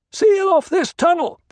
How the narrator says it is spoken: Paul shouted

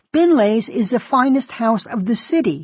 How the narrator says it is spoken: he exclaimed

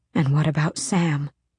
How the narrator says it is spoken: She breathed

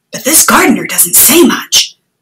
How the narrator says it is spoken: Haroon whispered to If

